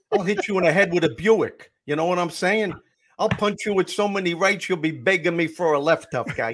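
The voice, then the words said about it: Exaggerated Brooklyn tough-guy accent. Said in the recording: “you've got the accent down”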